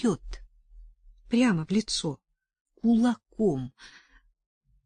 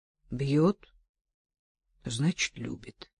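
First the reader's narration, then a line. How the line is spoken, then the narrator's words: Even, flat tone. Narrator (Russian): ровным тоном резюмировал Арсений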